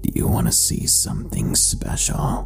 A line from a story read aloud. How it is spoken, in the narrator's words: He whispered to me in a low, gruff whisper